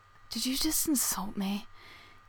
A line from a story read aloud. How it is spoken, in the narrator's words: He asks, breathlessly